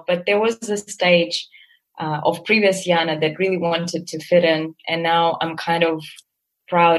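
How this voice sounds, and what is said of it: Non-native English accent. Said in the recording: “you still can always pick up my accent”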